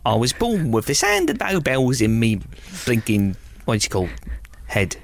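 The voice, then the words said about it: Unconvincing put-on Cockney accent. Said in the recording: “I'm doing a spot on Cockney accent ... You sound alarmingly like uh, Tom Hardy in Peaky Blinders ... You not only sound like you're not Cockney, you sound like you've never been within the sound of bow bells”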